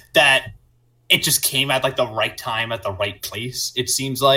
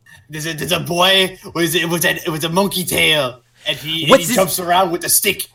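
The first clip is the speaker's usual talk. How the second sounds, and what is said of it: Bad fake French accent. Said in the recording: “I don't know what accent that was. ... That was not French. ... That sounded like a mix between Japanese and French. ... We're not good at French accents.”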